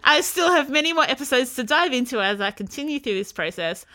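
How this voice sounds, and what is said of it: Australian accent. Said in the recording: “accents are like music to this American girl's ears ... We pull off an Australian accent really well”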